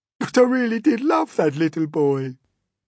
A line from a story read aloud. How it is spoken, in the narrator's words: the earthworm sobbed